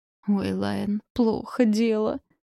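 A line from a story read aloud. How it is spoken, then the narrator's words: Moan. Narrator (Russian): простонала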